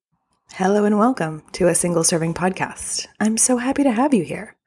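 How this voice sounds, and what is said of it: Flight attendant style voice. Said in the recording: “for some reason elected to talk like a flight attendant”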